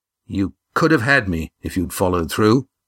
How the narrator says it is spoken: said Damon through clenched teeth

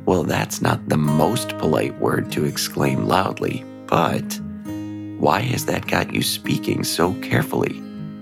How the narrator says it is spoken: Avi asked

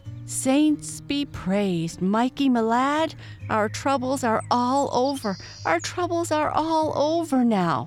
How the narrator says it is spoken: she cried

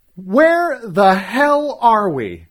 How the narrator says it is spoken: yelled

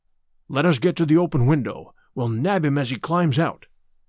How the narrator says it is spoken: Lestrade whispered

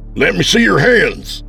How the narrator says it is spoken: yelled

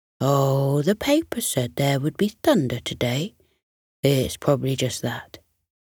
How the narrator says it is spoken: the lion replied soothingly

